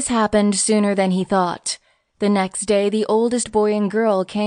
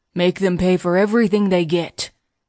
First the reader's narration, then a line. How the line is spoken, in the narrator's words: growled the baker, who was a hard man